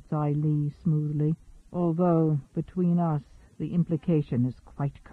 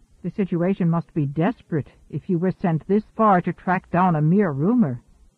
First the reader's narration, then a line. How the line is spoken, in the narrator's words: Yan Dingbo blurted